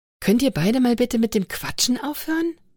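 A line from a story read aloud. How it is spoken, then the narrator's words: Hissed firmly, brooking no argument. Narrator (German): zischte Anna deutlich und ohne Widerrede zu gestatten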